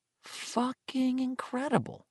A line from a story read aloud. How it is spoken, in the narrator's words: Richie Tozier said softly